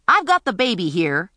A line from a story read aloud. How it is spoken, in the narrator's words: Imogene barked at the wise men